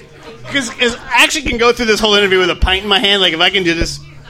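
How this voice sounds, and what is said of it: Speaks with a strong accent. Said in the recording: “You have a crazy accent.”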